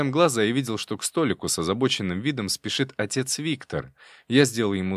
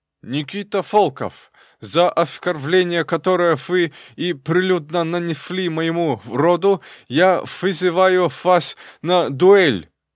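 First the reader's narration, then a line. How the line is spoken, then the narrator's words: Heavy lisp, young man. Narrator (Russian): Из-за опухшей щеки молодой князь сильно шепелявил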